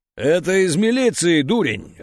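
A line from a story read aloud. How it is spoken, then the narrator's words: Loud booming bark. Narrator (Russian): рявкнула тетя Клава так зычно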